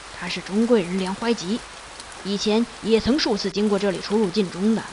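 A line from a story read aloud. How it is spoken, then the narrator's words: Certain, low voice. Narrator (Chinese): 才肯定的低声对执戟人说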